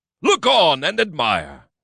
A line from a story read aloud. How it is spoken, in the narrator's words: called out